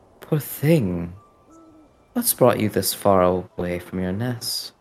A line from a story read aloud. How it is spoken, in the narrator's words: very, very calmly, she says